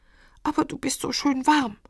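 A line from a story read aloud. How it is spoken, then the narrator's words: Whining. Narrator (German): jammert Klee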